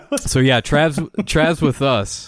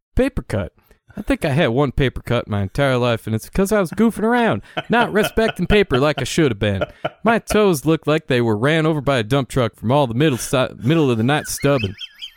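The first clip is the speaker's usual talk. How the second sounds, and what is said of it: Exaggerated back-road Appalachian accent. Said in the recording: “do my best Trav impression ... the funniest back road Appalachian I've ever heard”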